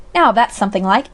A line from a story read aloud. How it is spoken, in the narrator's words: exclaimed Dr